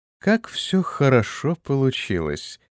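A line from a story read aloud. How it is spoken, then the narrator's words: Purring. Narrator (Russian): промурлыкала Иза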